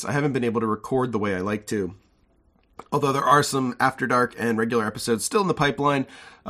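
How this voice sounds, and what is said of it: Congested voice from a cold. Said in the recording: “I'm just getting over a cold. You might hear it in my voice.”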